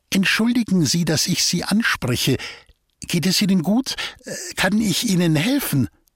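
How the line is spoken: Timid, delicate call. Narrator (German): nahm all ihren Mut zusammen und rief mit feiner Stimme

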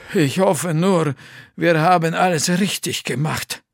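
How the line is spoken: Sighing. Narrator (German): seufzte

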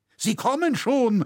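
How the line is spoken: Interrupting call. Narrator (German): rief Leu unterbrechend

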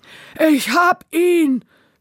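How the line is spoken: Shouting. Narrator (German): schrie er

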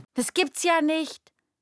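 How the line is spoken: Called out. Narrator (German): ruft sie

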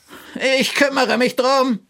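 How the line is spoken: Calling out. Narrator (German): rief Gerhard

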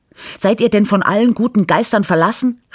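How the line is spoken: Call. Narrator (German): rief sie

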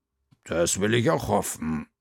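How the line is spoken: Female growl. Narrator (German): knurrte Frau Krüger

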